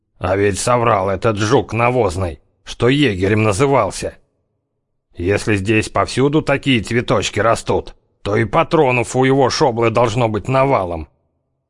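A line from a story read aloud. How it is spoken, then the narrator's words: Sepulchral voice. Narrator (Russian): зяблик с могильным голосом произнес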